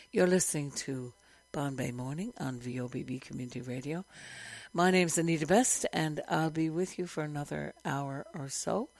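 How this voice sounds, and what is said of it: Hoarse, not fully recovered voice. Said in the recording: “I'm just getting over a very severe bout of laryngitis, so my voice is still not back 100% ... I just wore my voice out singing”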